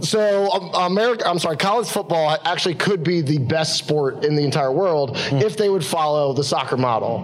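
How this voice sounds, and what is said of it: American accent. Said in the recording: “I'm an American ... I start talking about it with my accent”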